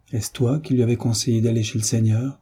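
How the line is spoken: Muffled, hollow voice. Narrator (French): dit-il d'une voix sourde

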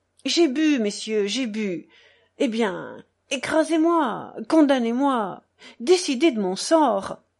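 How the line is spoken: Exclaimed. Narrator (French): s'écria Mitya

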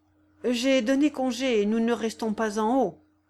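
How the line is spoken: Timid objection. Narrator (French): objecta Coupeau timidement

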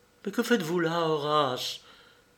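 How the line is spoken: Alarmed exclamation. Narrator (French): s'écria Patricia alarmée

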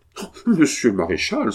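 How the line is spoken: Violent outburst. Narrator (French): s'écria violemment monseigneur Coletti

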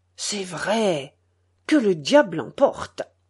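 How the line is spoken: Murmuring. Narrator (French): murmurait le patron

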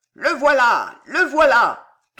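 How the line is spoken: Furious thundering voice. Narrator (French): tonna une voix furieuse

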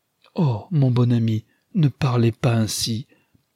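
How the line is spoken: Pleading, dismayed cry. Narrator (French): s'écria Rosamond, suppliante, avec un regard qui exprimait la consternation

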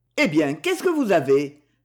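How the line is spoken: Exclaimed. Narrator (French): s'exclama Maxence

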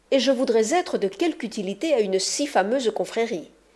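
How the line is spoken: Exclamation. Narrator (French): s'écria Rinconete

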